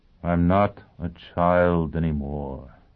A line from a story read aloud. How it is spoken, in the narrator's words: he said wearily